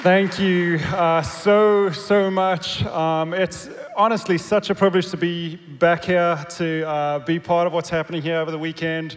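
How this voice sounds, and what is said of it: South African accent. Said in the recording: “you're gonna love his accent. This guy was born and raised in South Africa.”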